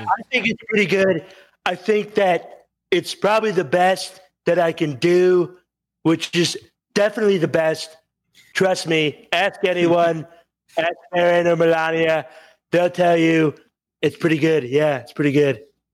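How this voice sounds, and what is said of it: Good impression of a politician. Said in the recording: “Very good impression. Very good. I'm very impressed with your impression.”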